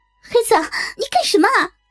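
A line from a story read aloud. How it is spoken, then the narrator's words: Frightened, hurried shout. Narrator (Chinese): 这下把我给吓坏了，我赶忙喊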